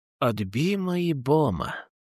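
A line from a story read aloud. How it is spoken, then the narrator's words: Smiling. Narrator (Russian): улыбнулся Сергей и устало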